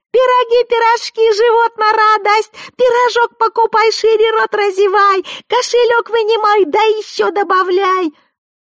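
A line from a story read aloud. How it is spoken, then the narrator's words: Shrill hawking puppet-show voice. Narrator (Russian): выкрикивала балаганным петрушечным голоском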